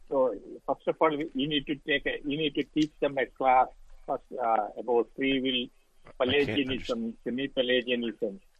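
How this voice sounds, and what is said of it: Thick accent. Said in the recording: “Your accent's pretty thick”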